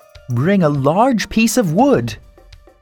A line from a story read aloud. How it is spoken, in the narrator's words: Lori shouted